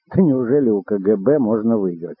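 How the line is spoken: Laughing loudly. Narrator (Russian): расхохотался Буш

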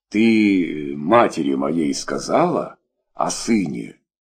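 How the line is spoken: Strained, forced words. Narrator (Russian): с трудом выдавил из себя Николай Петрович

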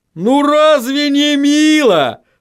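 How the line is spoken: Dreadfully cheerful exclamation. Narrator (Russian): С кошмарной жизнерадостностью воскликнул Ваймс

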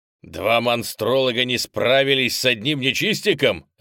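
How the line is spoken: Gruff bark. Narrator (Russian): рявкнул староста

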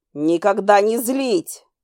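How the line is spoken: Barking. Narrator (Russian): я буквально рявкнула

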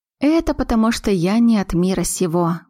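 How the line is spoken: Sighing. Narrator (Russian): вздохнула Аглая

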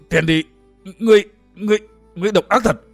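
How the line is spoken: Breathless stammer. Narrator (Vietnamese): Nhiếp Luân Tôn giả lắp bắp chẳng ra hơi

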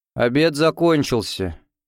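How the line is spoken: Young lady, gloomy. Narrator (Russian): мрачно сказала барышня

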